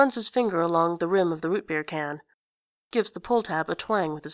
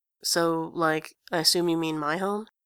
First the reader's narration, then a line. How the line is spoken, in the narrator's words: says Eponine, flatly